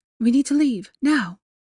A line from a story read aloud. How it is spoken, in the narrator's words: she said tightly, with shaking hands